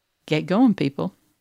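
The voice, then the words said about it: Put-on cowboy accent. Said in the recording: “Is that your is that your cowboy accent?”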